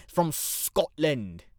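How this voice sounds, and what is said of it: Terrible put-on Scottish accent. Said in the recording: “I can do a terrible Scotland accent.”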